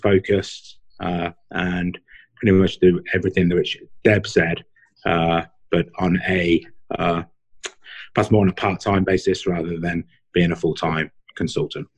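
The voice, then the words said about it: Speaks with a distinct accent. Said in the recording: “accent is way cooler than mine”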